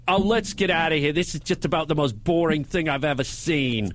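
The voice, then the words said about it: Bad New York Bronx accent. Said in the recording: “Your accents are so horrible ... Your Bronx accent sounded like Brisbane. It sounded like Melbourne.”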